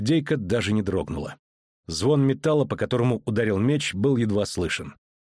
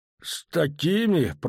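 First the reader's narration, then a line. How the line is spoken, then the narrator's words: Grumbling. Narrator (Russian): проворчал он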